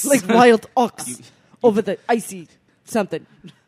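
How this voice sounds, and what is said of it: Put-on stereotyped accent. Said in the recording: “That's a really problematic accent for us to do”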